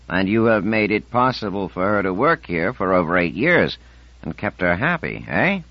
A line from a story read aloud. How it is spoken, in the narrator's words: He chuckled deeply